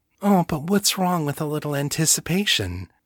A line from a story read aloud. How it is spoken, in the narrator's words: purred